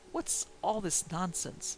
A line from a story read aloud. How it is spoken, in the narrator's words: I began testily